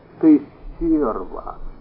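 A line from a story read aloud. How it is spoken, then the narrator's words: Almost tender. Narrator (Russian): почти ласково произнес он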